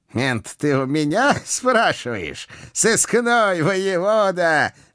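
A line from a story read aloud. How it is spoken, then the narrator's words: Booming villainous laughter. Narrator (Russian): Громогласно захохотал преступный гений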